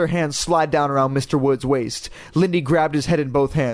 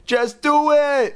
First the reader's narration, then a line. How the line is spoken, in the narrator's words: Chris screamed